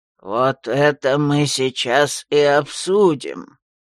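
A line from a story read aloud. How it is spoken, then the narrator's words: Creaky old voice. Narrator (Russian): Скрипучим голосом присоединился к разговору самый старый маг ледяных чертогов Лэр Хотай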